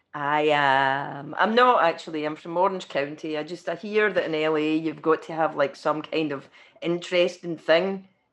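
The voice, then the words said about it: Thick Scottish accent. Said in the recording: “you're Scottish ... really thick Scottish, impenetrable Scottish accent”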